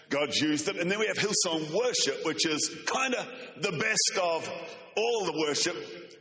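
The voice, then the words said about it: Strong accent, like Bruce the Shark. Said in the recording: “I hope you can understand my accent. ... in heaven, everyone speaks like this. ... I sound like Bruce the Shark from Finding Nemo”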